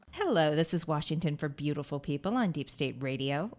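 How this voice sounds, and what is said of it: Smooth radio announcer voice. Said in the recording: “Ooh, I sound like I have radio voice.”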